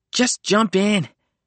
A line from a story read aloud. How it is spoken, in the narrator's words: he yelled, his voice strangely close